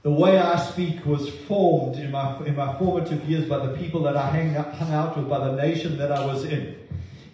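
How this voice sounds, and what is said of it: Slight South African accent. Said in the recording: “oh, you're from South Africa. Oh, I detect a little accent.”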